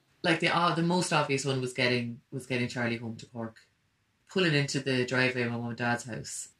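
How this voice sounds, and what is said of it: Irish Cork regional accent. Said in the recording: “My Cork region accent”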